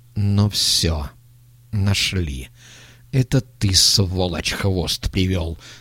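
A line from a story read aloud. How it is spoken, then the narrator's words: Elder hissing. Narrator (Russian): прошипел старший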